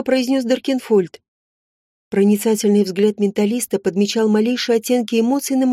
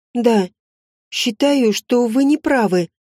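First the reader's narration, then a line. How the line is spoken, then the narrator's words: Muffled, forced out. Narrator (Russian): глухо выдавила я из себя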